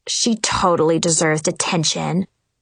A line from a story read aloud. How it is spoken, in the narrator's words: Zoe growled